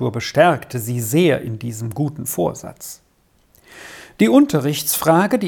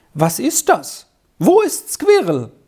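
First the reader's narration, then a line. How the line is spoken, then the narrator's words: Surprised exclamation. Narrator (German): rief sie überrascht aus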